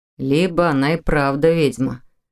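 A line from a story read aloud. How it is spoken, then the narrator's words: Amused snort. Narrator (Russian): хмыкнул Михаил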